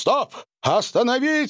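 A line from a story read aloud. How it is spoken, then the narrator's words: Shout. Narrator (Russian): закричал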